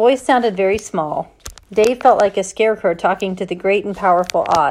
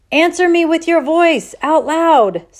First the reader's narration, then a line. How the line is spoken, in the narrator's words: she yelled